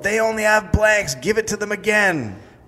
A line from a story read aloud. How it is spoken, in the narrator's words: someone in the mob yelled